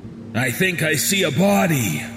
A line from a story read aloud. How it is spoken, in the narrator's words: the man on point exclaimed